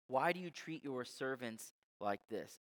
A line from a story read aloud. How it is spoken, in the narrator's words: cried to Pharaoh